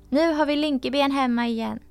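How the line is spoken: Mocking, laughing shouts. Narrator (Swedish): skrattade ut honom och ropade

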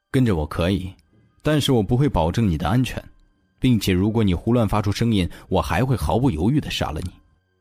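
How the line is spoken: Low, grave voice. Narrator (Chinese): 他沉声道

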